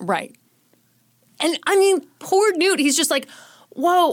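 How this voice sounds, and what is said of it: Usual voice. Nothing is said of it.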